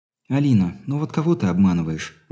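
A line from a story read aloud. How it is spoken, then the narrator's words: Sighing. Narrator (Russian): вздохнула Мария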